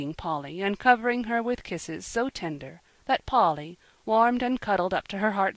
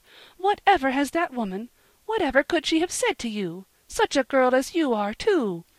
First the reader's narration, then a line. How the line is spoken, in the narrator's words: cried Mrs